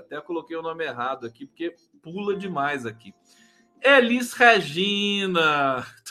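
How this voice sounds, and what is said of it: Bahian Brazilian Portuguese accent. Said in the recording (Portuguese): “Tô com sotaque baiano, não sei porquê.”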